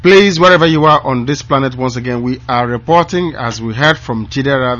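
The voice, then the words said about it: Tired, strained, failing voice. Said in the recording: “my voice letting me ... I'm beginning to feel a bit tired ... that is why my voice is going”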